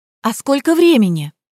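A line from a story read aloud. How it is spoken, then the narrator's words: Anxious question. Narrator (Russian): взволнованно поинтересовалась я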